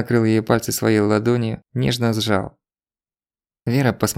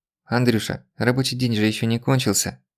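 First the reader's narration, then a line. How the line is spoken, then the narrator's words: Gentle objection. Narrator (Russian): мягко возразила Вера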